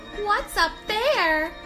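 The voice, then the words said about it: High-pitched little kid voice. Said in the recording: “try the little kid voice”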